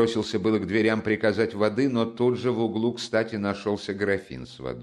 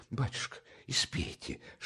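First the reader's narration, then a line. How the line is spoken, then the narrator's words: Whisper. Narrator (Russian): шептал он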